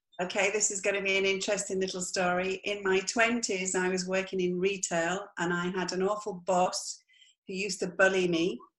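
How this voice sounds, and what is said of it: English accent. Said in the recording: “I am not Spanish. I have an English accent.”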